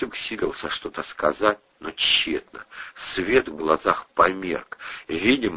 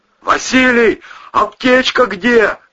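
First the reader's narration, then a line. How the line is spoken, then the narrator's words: Yelled. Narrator (Russian): заорал Ковторанг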